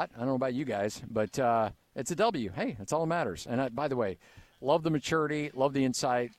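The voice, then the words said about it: Hoarse, worn-out voice. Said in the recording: “my voice is shot”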